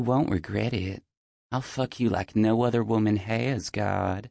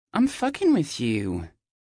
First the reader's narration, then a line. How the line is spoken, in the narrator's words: she whines